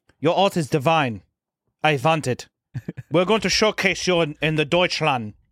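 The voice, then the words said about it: Put-on German accent. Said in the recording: “I can't do a good French accent. I'm going to say German.”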